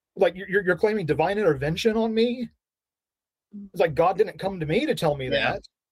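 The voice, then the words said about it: Yelling, upset voice. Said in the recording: “I'm sorry that I'm yelling and I'm upset now”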